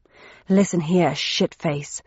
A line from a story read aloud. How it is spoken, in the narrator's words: said Thursday 1-4 with a snarl